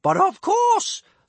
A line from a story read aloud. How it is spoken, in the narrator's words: thundered big-boobied Bertha, excitedly, for she was always the life and soul of the party